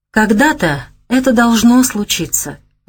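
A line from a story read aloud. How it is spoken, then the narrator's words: Sighing, teacher. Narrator (Russian): вздохнул учитель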